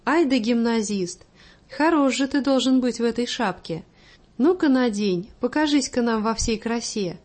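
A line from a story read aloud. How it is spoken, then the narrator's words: Loud laughter. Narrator (Russian): расхохоталась на всю комнату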